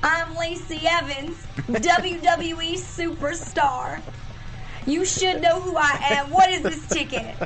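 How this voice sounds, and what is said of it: Imitated Lacey Evans character accent. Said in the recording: “in her accent, she says it... In her character accent... But way more dramatic and kind of nasty”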